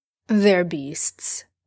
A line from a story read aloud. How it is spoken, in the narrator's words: Dean says bitterly